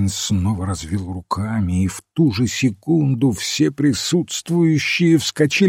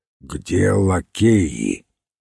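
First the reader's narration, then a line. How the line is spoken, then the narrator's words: Low muffled voice. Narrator (Russian): низким глухим голосом спросил полковник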